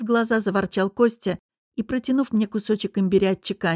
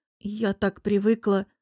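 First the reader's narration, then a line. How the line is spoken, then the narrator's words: Absent-minded forced words. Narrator (Russian): рассеянно выдавила я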